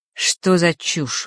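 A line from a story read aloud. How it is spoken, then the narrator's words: Cold. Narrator (Russian): холодно произнес он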